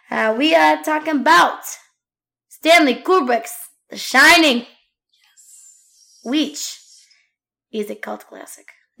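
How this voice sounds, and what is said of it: Put-on accent drifting toward Russian. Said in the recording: “I don't know what this accent is or where it's going to lead me ... Now I'm Russian. I don't know what happened to my voice, but something weird.”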